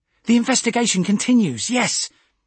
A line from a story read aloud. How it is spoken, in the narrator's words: Rakel nodded eagerly, her flat nasal voice grating